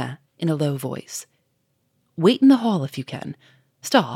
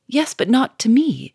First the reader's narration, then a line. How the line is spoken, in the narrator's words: cried Sonia, wringing her hands